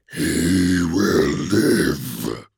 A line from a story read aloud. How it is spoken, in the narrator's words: rasped, in a voice that felt like memory